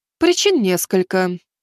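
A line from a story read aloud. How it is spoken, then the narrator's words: Sighing reply. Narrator (Russian): вздохнув, начала отвечать Фурия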